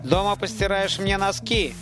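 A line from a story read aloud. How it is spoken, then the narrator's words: Sharp shout. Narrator (Russian): прикрикнул он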